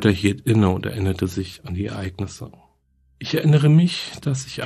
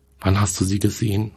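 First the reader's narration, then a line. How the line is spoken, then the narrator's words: Plain. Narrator (German): fragte Susan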